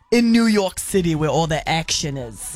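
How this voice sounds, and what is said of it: Put-on accent. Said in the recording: “Don't do the accent.”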